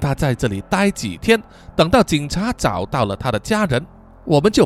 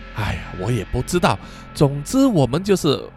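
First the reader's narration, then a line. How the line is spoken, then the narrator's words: Sighing. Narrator (Chinese): 艾伦叹了一口气说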